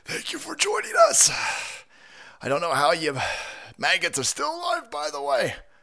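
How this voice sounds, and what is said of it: Out of breath. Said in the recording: “I'm already out of breath.”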